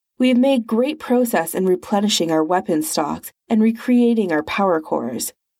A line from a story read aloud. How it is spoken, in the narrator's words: Nergal said smoothly